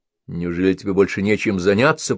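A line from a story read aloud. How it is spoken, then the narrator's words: Grumbling. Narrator (Russian): проворчал Бен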